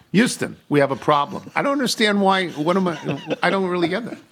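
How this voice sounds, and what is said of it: Imitates another person's voice. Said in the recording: “my impression of Mr. Tony”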